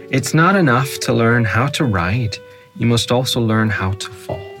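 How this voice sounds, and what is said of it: Northern Irish accent. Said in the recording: “my accent. It must be my accent. ... It's my Northern Irish accent, so it is.”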